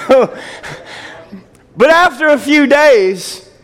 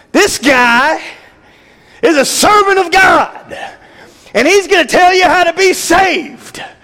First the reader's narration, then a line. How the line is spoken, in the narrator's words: scream